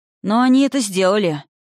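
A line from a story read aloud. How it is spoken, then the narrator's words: Gloomy general. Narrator (Russian): мрачно указал ему на очевидное генерал Эйлифор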